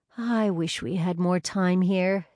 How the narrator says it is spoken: Sydney sighed

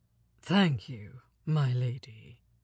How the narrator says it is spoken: he said gravely

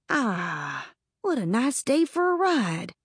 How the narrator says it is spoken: Thimble took a deep breath and sighed, as if he were saying

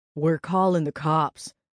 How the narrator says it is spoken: he growled

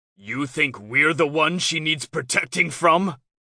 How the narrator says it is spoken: Rafe roars

